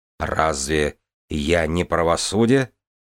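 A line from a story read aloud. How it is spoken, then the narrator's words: Plain. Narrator (Russian): ответила Таэна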